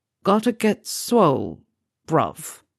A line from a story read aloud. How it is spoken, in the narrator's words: Ademola replied, slowly, consciously, as a test